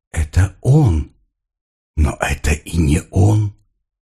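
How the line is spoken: Whispering voice. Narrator (Russian): чей-то голос нашептывал ей

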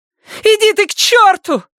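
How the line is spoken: Girl shouting. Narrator (Russian): крикнула девочка

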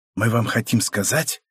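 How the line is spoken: Cook's dramatic whisper. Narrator (Russian): драматическим шепотом сообщила засаленная повариха

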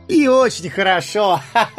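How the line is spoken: Carefree laugh. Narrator (Russian): Беспечно рассмеялся Бильбо

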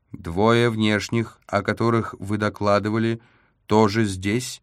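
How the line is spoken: Flat mechanical distorted voice. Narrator (Russian): поинтересовалась коробка ровным механическим голосом, несомненно пропущенным через искажатель речи

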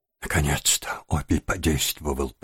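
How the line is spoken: Young woman whispering. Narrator (Russian): прошептала девушка

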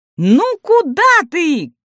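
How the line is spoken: Calling out after. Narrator (Russian): крикнул вслед Каин

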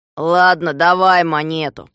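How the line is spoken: Grumbling. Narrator (Russian): проворчал Дригль

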